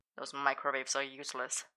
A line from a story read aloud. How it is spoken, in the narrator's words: Arthur muttered